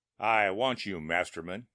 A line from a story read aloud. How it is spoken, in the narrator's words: said evenly